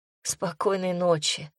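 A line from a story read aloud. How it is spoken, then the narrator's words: Sleepy whisper. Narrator (Russian): Почти засыпая, прошептала я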